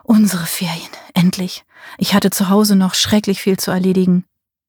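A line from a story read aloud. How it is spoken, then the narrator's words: Murmuring into ear. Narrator (German): Er murmelte in ihr Ohr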